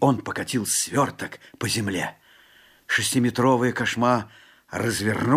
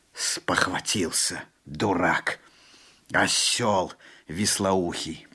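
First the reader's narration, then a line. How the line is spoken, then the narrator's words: Through gritted teeth. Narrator (Russian): проговорил Алан-Би сквозь зубы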